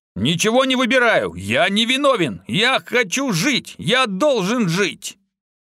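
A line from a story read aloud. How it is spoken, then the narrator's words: Loud shouting while struggling. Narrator (Russian): Адмирал начал громко кричать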